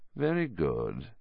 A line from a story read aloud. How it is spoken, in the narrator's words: said Voldemort softly